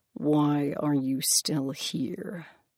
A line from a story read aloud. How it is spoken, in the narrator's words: Hades asked through gritted teeth